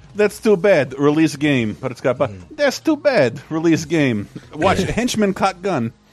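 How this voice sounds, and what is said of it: Put-on Polish accent. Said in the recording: “good Polish impression?”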